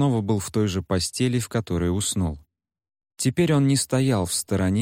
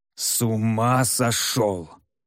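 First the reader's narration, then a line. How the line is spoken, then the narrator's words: Low growl. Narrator (Russian): низко прорычал северянин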